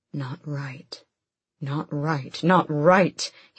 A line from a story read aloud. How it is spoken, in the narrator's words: his magic whispered